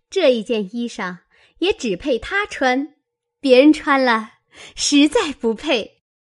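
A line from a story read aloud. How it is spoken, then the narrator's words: Smiling. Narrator (Chinese): 湘云 笑道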